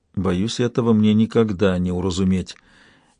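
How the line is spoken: Quiet. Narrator (Russian): тихо проговорила рещица

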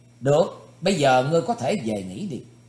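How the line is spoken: Smiling, said. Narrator (Vietnamese): Thủy Tướng Hạo mỉm cười gật đầu nói

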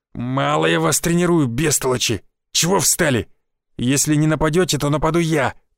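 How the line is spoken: Growling. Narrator (Russian): прорычал Гвоздев

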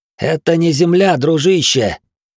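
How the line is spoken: Near-growl on last word. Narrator (Russian): Последнее слово Глорг едва не прорычал

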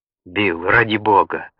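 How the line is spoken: Trembling pleading. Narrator (Russian): умолял Каллаган дрожащим голосом

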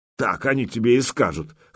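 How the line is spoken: Scoffing snort. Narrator (Russian): хмыкнул Ярош

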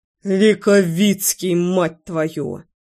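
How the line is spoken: Growled. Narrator (Russian): прорычал Лёша

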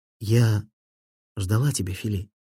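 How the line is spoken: Velvety, tender voice. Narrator (Russian): своим бархатным голосом нежно сказала

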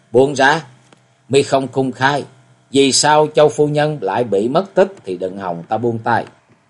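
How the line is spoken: Laugh, then resentful. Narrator (Vietnamese): Hồng Phong buông ra tiếng cười rồi hậm hực nói

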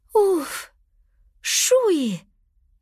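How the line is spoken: Relieved exhale, girl. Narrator (Russian): с облегчением выдохнула девочка

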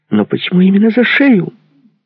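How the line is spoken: Squealed. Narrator (Russian): взвизгнула Туся

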